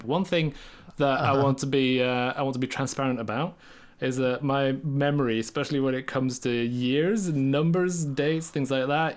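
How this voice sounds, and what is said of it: English accent, sounds somewhat Irish. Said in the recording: “If you didn't tell me you're from Norway, I would think you're from Ireland. ... a really bad English accent”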